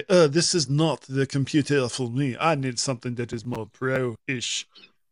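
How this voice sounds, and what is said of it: Fake French accent. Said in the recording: “in a like a fake French French accent”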